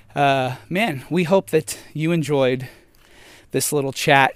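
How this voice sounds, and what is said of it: Out of breath, panting speech. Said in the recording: “Sorry, I'm so out of breath.”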